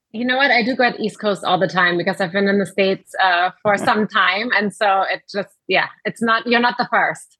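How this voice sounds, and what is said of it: German accent that sounds New York. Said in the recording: “I'm trying to detect that accent. It sounds very New York. ... No, German.”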